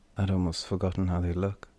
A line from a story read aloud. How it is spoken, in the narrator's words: Lidikai said softly, quietly